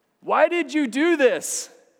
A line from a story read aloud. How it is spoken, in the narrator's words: called out